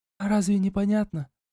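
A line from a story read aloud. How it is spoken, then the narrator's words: Barely audible. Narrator (Russian): Едва слышно отозвалась аристократка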